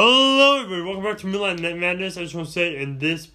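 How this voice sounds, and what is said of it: Usual voice. Nothing is said of it.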